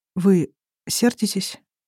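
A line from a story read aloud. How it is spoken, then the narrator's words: Quiet hoarse question. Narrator (Russian): Тихо и сипло спрашивает Кир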